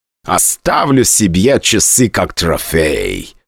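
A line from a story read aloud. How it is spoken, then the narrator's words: Malicious, smiling. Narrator (Russian): злобно улыбнулся Дэйн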